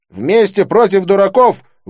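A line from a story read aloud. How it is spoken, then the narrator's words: Shouted out. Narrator (Russian): выкрикнул Рауль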